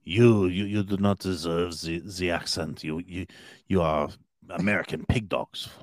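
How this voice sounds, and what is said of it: Bad put-on French accent. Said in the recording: “that's pretty bad ... This is how French sounds”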